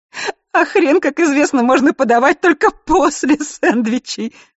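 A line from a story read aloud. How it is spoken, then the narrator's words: Sobbing, forced out. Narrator (Russian): всхлипывая, с трудом выдавливает Холли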